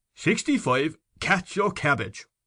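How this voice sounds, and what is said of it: Thick provincial accent, commanding tone. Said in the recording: “He assumed a thick provincial accent, and said in a tone of command”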